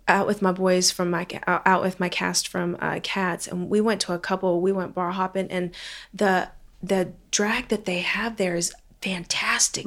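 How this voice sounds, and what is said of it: Southern American accent, intermittent. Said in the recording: “I can hear your Southern accent weave in and out of there.”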